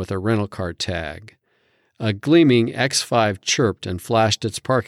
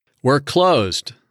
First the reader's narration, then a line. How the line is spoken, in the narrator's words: yelled